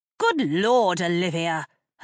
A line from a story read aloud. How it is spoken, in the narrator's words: her mother snapped